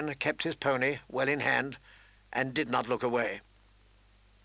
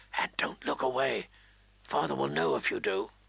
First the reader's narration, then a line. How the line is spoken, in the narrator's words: whispered